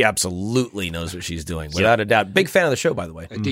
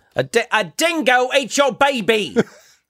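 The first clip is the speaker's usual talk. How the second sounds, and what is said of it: Put-on Australian accent. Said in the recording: “It's pretty close. ... I closed my eyes, and it's like I was in Straya.”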